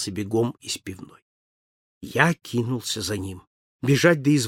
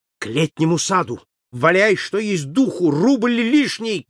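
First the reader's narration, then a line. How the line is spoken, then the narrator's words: Shouted. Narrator (Russian): крикнул Холмс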